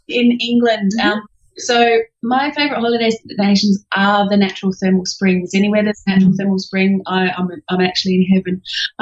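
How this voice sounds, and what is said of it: Australian accent with English undertone. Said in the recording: “I'm actually English, so that's the undertone that you can hear underneath my Australian accent”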